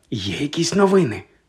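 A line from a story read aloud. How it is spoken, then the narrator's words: Whispered secretly. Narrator (Ukrainian): додала вона пошепки, щоб не почула мадам Помфрі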